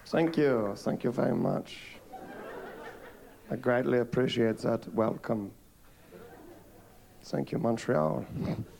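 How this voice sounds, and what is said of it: Southern US (South Carolina) accent. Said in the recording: “I'm from South Carolina. You can tell by my accent”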